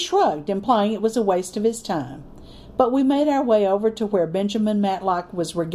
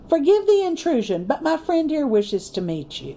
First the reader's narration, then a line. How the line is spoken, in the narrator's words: Andrew said cheerfully